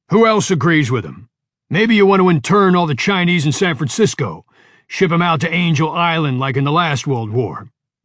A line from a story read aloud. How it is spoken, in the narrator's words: shouted Mike